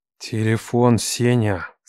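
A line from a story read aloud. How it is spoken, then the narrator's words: Growled through teeth. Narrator (Russian): Сквозь зубы прорычал Лев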